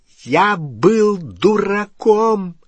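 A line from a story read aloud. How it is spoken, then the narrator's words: Loud exclamation. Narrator (Russian): воскликнул Перси так громко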